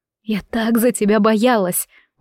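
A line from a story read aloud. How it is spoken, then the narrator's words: Breathed out. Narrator (Russian): выдохнула я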